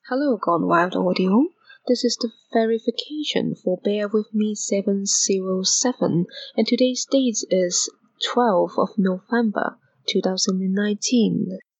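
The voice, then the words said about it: Non-native foreign accent in English. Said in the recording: “English is not my first language, judging by my accent. If you are into foreign accents,”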